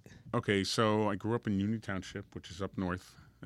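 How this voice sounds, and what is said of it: Guido-style New Jersey accent. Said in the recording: “my Guido accent”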